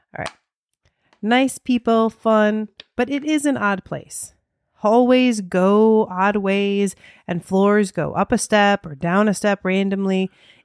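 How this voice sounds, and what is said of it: American accent. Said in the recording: “I can't do an Australian accent ... You're just going to have to listen to this in my American accent.”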